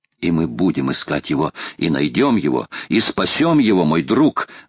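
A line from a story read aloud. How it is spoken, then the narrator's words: Exclaiming. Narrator (Russian): воскликнул Паганель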